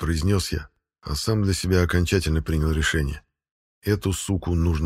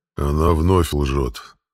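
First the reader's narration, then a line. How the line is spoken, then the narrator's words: Sleepy, matter-of-fact. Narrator (Russian): сонным голосом констатировал Дракот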